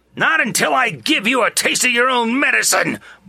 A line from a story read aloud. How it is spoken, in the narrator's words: Monk roared